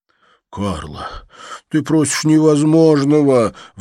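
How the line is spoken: Pleading. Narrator (Russian): взмолился Тадж

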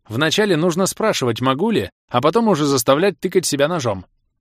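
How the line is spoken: Mage smirking. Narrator (Russian): хмыкнул маг

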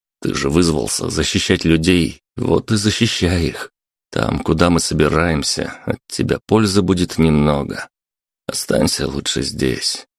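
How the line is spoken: Softer. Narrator (Russian): уже более мягко добавил он

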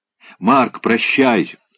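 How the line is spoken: Startled cry. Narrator (Russian): вскрикнула она, и сама испугалась собственного голоса

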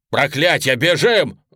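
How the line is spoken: Roared. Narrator (Russian): взревел я

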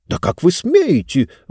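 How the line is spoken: Indignant exclamation. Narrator (Russian): возмущенно воскликнула книга

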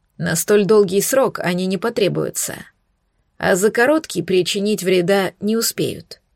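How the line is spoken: Calm declaration. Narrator (Russian): спокойно заявил князь

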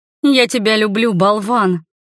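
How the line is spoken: Growling. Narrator (Russian): рычала я

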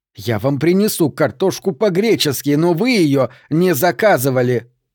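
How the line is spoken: Near shouting. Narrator (Russian): Она почти орала

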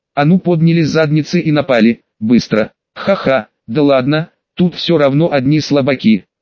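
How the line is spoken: Laughing. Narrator (Russian): рассмеялась Руми

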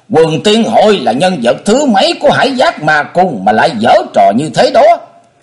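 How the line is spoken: Shouting. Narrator (Vietnamese): Linh Châu đạo nhân thét lên một tiếng

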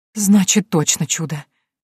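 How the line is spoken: Relieved exhale. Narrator (Russian): облегченно выдохнула женщина

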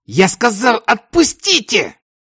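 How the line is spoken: Shouting. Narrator (Russian): Кричал

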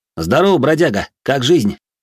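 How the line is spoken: Roaring reply. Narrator (Russian): Взревел в ответ

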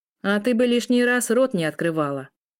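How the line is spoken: Snapping retort. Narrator (Russian): огрызнулся бегемот

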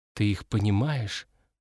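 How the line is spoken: Whispered question. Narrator (Russian): шепотом спросил я у Мари

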